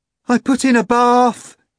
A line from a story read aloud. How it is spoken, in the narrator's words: cried the bloodied Mogaric